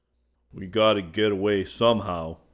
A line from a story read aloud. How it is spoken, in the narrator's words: grumbled Judson